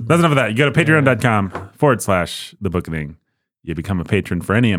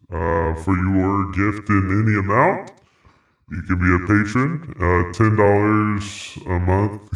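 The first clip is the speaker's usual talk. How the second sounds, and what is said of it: Put-on deep voice. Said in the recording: “a deep voice.”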